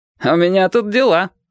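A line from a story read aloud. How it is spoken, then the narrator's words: Laughing objection. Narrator (Russian): возразил Петька и засмеялся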